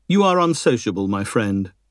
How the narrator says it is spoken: the girl said sharply

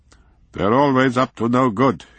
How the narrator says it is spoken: he grumbled

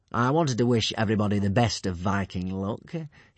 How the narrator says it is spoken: he said, smiling smoothly and easily

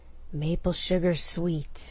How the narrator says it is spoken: Dag growled

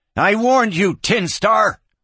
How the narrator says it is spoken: the kid hollered

